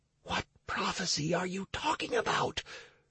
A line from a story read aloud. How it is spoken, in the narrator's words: Stacy whispered, unable to control herself